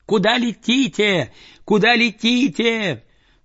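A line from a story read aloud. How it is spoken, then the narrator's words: Shouted. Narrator (Russian): закричала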